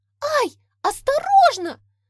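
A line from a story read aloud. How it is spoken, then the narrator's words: Shrill squeal. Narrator (Russian): взвизгнула Маргоша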